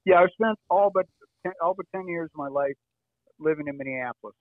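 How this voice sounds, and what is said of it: Slight Upper Midwest accent. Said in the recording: “I hear the accent a little bit.”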